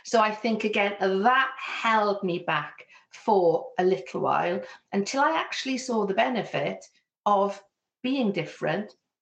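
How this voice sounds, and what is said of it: Fairly neutral Welsh accent. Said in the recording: “you can hear very clearly I have a Welsh accent, my Welsh accent is actually much more neutral compared to some of the places that I moved to”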